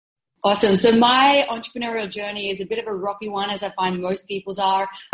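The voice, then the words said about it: Australian accent. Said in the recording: “She's based in Sydney, Australia. That's why she's got that cool accent.”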